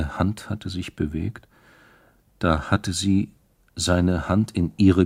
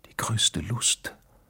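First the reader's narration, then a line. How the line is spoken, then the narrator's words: Whispered. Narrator (German): hatte sie geflüstert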